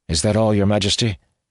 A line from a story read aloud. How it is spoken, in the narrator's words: he asked stiffly